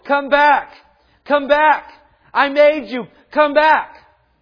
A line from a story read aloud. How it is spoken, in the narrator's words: running down the shoreline, yelling at his boat